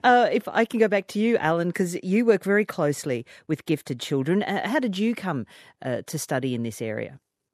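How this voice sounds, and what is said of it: Australian accent. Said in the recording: “it's my Australian accent”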